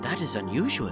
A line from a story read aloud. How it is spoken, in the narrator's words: The little girl whispers